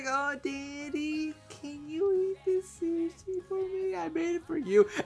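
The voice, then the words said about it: High-pitched baby voice. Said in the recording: “baby voice ... she goes so high up there”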